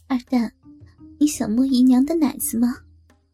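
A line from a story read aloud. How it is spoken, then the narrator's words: Laughing. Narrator (Chinese): 张秀兰打着笑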